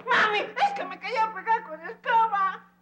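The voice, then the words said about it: Crying, shouting child voice. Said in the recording (Spanish): “¿Por qué gritaste? ... ¡Está llorando!”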